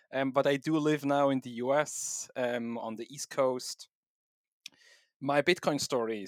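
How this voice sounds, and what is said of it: Swiss-German accented English. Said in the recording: “my weird accent is a combination of Swiss, German, German, and English”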